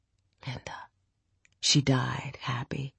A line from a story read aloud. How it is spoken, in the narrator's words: He whispered